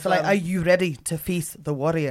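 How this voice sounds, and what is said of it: Put-on Scottish accent. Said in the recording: “How's your Scottish accent? ... Both equally fine, I'd say. Solid stuff.”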